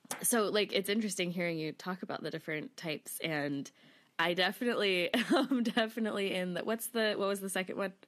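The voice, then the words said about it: Voice with a cold, throat-clearing. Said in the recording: “I have a little bit of a cold, so I'm clearing my throat a lot”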